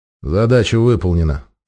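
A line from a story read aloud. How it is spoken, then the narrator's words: Tired reply. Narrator (Russian): устало ответил 13-й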